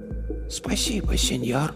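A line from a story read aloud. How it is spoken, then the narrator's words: Whisper. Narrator (Russian): прошептала она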